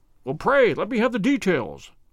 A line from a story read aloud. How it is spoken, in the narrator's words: I cried